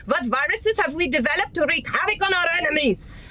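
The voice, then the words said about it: Put-on German accent. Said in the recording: “giving the CEO of the Institute a German accent rather than a Chinese one”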